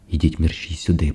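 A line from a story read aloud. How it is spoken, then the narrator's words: Whispered. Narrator (Ukrainian): прошепотіла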